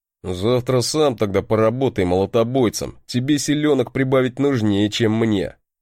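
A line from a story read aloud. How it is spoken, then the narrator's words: Grumbled. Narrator (Russian): проворчал мой брат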